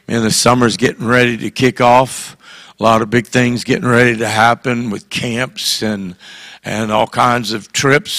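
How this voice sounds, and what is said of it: Slightly hoarse voice. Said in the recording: “Sorry I'm a little hoarse, but that's better than the way it was a couple days ago.”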